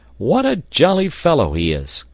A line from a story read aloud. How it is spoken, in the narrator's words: cried Pencroft often